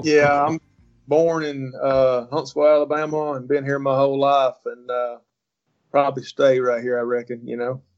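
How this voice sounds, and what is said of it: Southern US accent. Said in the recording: “you got to be from the South, right? ... I love the South accent.”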